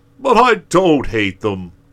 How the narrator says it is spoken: exclaimed Santa Claus positively

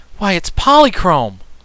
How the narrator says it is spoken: exclaimed Button Bright in a voice of mingled wonder and delight

